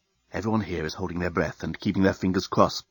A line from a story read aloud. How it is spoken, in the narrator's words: whispered the head reporter of the Blerontin News-Gathering Bureau into his invisible microphone